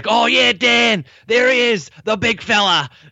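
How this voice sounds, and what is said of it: Put-on Australian accent. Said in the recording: “coach is Australian ... It's a very joyous accent.”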